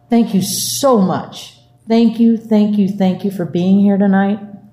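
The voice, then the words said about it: Teary, emotional voice. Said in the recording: “I don't feel so good, so, you know, I'm a little more teary ... I'm going to be a little teary tonight”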